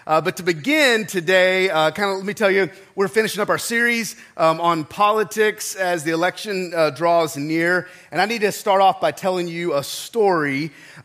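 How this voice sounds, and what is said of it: Sounds unwell, voice in poor shape. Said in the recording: “I do not feel good today, so I sound terrible ... if I cough a little bit”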